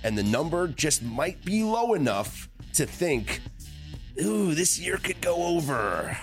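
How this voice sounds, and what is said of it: Tony Romo impression. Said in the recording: “my Tony Romo impression”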